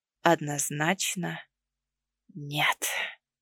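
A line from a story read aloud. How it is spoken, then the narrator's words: Hoarse rasp. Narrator (Russian): прохрипел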